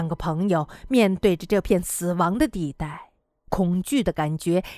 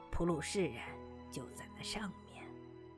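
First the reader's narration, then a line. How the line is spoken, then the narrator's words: Hushed, low voice. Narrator (Chinese): 索瓦日先生压低了声音说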